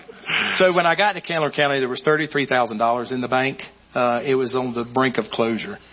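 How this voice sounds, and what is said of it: Mild Southern accent. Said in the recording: “You're not from New York City. ... You can tell by my accent a little bit.”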